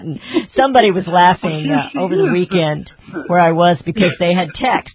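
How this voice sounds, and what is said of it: Southern American accent. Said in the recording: “my accent here. You know, the you-ins and y'alls and all that”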